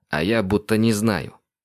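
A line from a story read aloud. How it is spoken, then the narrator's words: Angry snap. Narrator (Russian): зло огрызнулся Андрей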